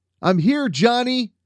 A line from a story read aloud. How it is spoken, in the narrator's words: Dusty yelled in Johnny's direction